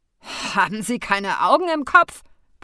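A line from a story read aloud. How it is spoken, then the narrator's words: Roaring. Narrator (German): brüllte er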